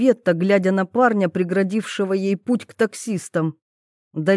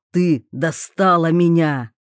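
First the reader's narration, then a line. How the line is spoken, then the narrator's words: Menacing. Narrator (Russian): грозно отвечал Тарас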